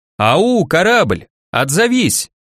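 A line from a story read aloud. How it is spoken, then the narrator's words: Loud call. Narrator (Russian): позвал громко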